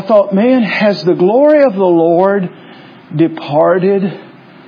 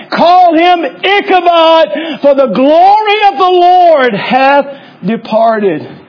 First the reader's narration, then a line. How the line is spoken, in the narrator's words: Phinehas' wife, which was in labor or was pregnant, as she cried out in death, she said